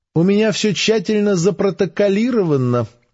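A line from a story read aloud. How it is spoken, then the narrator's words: Cheerful joking scientist. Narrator (Russian): весело пошутил ученый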